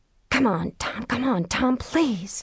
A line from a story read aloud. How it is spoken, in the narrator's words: Tricia whispered